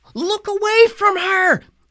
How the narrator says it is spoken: Annabeth shouted

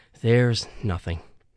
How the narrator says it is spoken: I said quietly

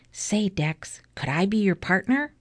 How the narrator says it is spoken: whispered

